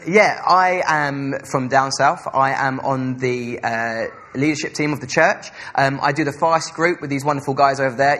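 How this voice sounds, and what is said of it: Essex English accent. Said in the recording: “I have a very weird accent. I'm from Essex”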